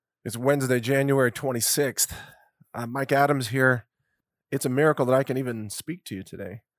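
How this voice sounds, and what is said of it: Fragile, strained voice. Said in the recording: “You can hear my voice is still a little fragile”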